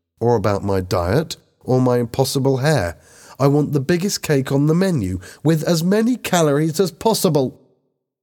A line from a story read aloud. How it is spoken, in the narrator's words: Lisa exclaimed